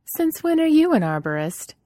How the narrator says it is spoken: Shara laughed at him

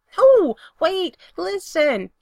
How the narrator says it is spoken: Spencer hollers

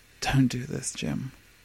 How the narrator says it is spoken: he whispers

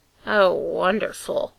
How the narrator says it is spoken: he said, his voice tinged with ice

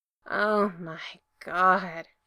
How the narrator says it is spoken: Gerard moaned

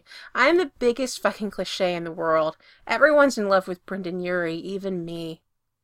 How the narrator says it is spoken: Spencer continued bitterly

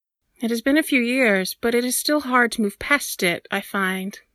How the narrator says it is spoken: Daylin says gently

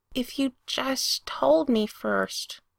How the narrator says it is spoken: Pete insisted, then added quietly

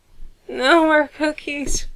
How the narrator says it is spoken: he whimpered

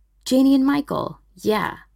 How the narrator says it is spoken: Stiles says

